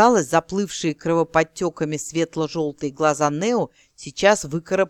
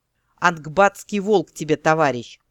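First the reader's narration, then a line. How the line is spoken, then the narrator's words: Angry snap. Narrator (Russian): зло огрызнулся Эрин Рандир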